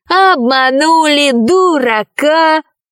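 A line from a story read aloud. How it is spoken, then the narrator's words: Troll shouting. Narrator (Russian): кричал тролль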